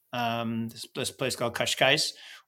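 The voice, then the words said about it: Joking Portuguese accent. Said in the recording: “my Portuguese accent's pretty good, huh? ... Just kidding.”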